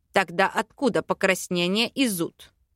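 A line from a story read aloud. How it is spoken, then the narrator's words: Angry growl. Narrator (Russian): Рыкнул разозленный Аринель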